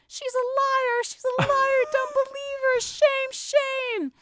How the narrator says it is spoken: her mom screaming on top of her lungs

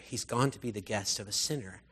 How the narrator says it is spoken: all the people began to mutter

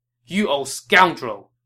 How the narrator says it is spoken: he barked back at Tao Qian

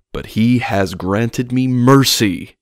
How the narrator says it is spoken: Father James exclaimed, shouting

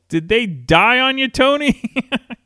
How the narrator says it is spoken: a guy yells

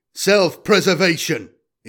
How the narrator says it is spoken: boomed

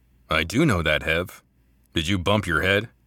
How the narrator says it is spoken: Heavy chuckled

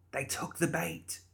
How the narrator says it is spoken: she looked back at Archie and whispered

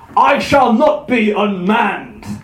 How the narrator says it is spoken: Thor thundered

